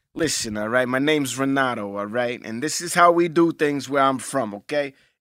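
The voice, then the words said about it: Italian New York accent. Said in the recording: “You do an Italian New York accent, right? ... my Italian accent ... It's almost like a New York accent, too.”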